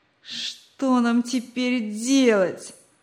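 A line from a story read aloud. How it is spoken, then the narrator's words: Whiny tearful voice. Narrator (Russian): плаксивым голосом произнес он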